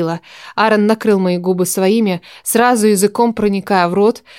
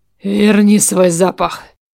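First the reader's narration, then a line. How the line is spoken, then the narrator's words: Hoarse. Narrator (Russian): Прохрипел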